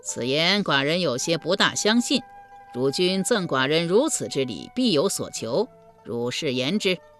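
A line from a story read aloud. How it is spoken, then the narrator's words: Laughing reply. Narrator (Chinese): 于君笑回道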